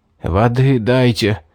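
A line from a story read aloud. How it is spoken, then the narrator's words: Hoarse wheeze. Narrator (Russian): Просипел я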